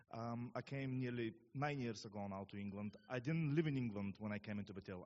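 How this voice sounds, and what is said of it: Bulgarian accent. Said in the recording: “what my accent is, I'm from Bulgaria”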